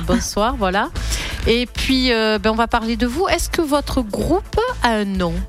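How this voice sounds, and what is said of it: Provençal accent. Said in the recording (French): “mon accent provençal”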